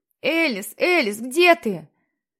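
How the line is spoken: Frantic scream. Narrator (Russian): Он истошно кричал

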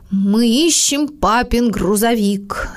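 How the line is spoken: Solemn reply. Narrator (Russian): торжественно ответил Мартин

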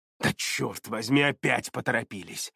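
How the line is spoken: Irritated mutter. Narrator (Russian): С раздражением пробормотал он

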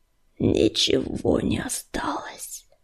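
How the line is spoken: Strangled wheeze. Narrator (Russian): сдавленно прохрипел он

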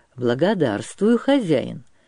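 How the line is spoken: Cheered-up voice. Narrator (Russian): сказал повеселевшим голосом

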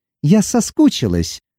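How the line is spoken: Soft cooing. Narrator (Russian): проворковала она

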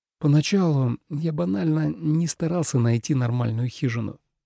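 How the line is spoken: Quiet. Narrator (Russian): тихо сказал он

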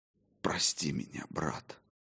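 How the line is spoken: Whisper. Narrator (Russian): прошептал я

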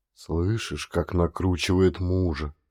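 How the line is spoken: Whisper. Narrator (Russian): шепнул Халил жене

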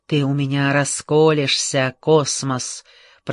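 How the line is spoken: Hissing. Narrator (Russian): прошипел Лин

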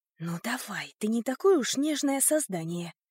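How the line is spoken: Whispered self-reassurance. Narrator (Russian): шепотом заверила я себя

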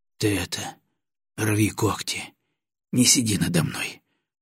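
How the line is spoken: Hoarse wheezing. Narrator (Russian): прохрипел Батоныч

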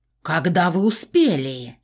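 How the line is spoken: Distorted furious roar. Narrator (Russian): Не своим голосом взревела богиня

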